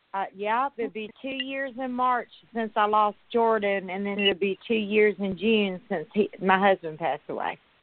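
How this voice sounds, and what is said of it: Mississippi Southern US accent. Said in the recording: “I moved to Mississippi. I moved back to my hometown. ... I can hear your accent.”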